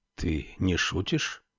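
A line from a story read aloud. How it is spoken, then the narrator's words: Whispered question. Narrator (Russian): шепотом спросил молодой человек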